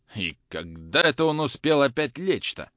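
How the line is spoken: Grumbling. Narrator (Russian): ворчал Захар

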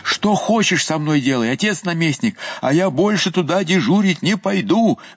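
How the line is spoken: Old man yelling. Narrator (Russian): вопил дед

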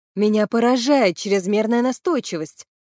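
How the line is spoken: Plain. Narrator (Russian): ответила я

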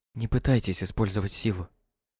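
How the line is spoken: Whisper. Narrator (Russian): прошептала Хелена

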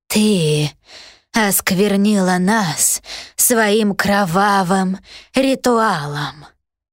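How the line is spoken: Creaking wooden voice. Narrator (Russian): проскрипел деревянный человек

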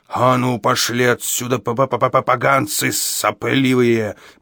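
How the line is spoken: Growled. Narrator (Russian): прорычал он

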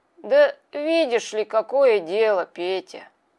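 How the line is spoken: Slurred grumbling. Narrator (Russian): проворчал Мишка, языком еле ворочая

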